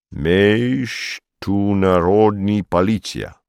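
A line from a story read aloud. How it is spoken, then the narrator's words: Solemn. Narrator (Russian): сказал он торжественно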